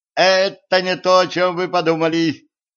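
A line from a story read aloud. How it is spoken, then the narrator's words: Embarrassed young men shouting together. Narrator (Russian): Молодые люди, стремительно покраснев, дружно заорали в один голос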